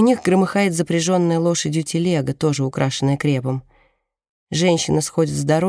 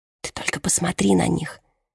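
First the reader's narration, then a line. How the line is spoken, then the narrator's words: Barely audible. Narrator (Russian): едва слышно произносит Донателла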